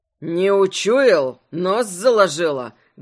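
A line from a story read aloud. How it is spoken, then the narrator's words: Angry bear growl. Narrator (Russian): Гневно прорычал медведь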